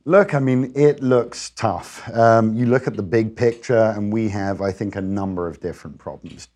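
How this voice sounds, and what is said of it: Noticeable non-American accent. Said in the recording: “cool accent”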